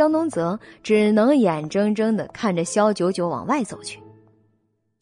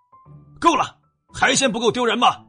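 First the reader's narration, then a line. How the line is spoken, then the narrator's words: Sharp stern rebuke. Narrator (Chinese): 宋之如厉声喝止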